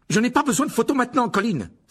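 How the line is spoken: Forceful exclamation. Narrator (French): s'écria-t-il avec force

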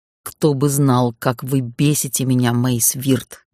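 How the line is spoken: Growled. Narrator (Russian): прорычал некромант

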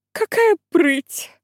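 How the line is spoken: Sigh-like yawn. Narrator (Russian): Миссис Манреза не то вздохнула, не то зевнула

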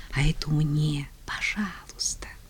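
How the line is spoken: Whispered. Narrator (Russian): Ксюша шептала

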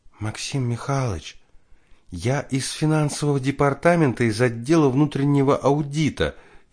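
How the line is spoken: Barely audible. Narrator (Russian): едва слышно заговорила незнакомка

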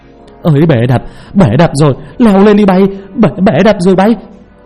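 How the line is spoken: Panicked screaming man. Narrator (Vietnamese): một người đàn ông hét lên thất thanh

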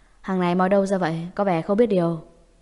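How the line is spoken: Cold, displeased. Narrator (Vietnamese): Diệp Trì xa sầm mặt mày, mặt lạnh lùng

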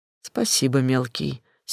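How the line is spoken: Serious. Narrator (Russian): серьезно кивнул

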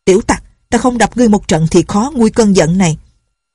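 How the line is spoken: Angry cursing, woman. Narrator (Vietnamese): Bà vẫn còn tức giận chửi

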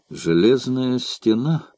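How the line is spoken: Muttered. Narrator (Russian): пробормотал он

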